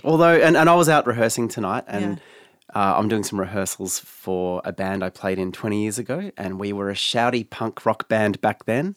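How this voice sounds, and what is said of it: Rough, hoarse strained voice. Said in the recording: “my voice is shredded ... It does sound a bit rough”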